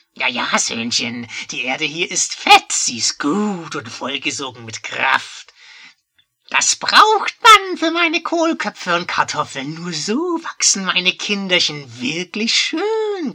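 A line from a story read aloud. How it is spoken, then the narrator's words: Croaking. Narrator (German): krächzte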